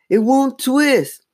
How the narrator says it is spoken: Lindsay cried in frustration

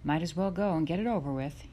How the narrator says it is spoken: he said

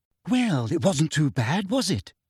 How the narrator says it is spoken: asked Hermione anxiously

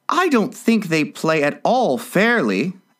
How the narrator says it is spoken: Alice began in a rather complaining tone

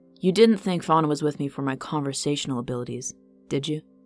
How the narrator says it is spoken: Vivin chuckled softly

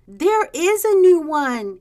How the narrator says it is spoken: cried the youngest

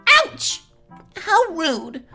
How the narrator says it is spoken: Half asleep, Link groaned

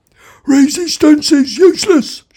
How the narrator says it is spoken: shouted the Vogon guard back at him

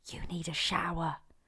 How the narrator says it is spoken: Lily leant over to him and whispered

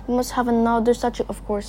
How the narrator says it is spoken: said

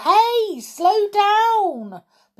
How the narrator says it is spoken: Jodie yelled

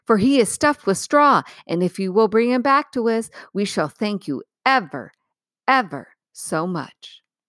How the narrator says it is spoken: said Dorothy eagerly

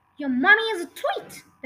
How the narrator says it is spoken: the Trunchbull bellowed

